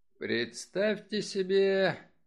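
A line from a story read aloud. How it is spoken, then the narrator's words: Good-natured, still loud. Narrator (Russian): добродушно, но по-прежнему громко продолжал он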